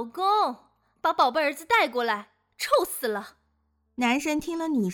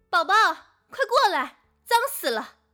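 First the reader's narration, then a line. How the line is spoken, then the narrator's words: Exasperated loud shouting. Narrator (Chinese): 女神气急败坏的大声叫喊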